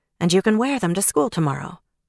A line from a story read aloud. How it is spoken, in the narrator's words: Sam added as calmly as she could